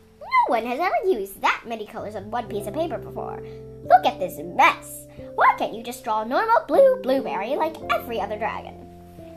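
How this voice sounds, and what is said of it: Imitated stern principal character voice. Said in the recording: “putting on the voice she'd used several times already ... That's exactly what Principal Lubber sounded like.”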